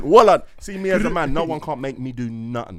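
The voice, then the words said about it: Put-on accent. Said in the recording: “let me bring out the accent.”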